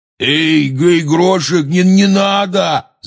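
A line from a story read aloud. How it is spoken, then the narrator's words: Shout. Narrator (Russian): закричал Хагрид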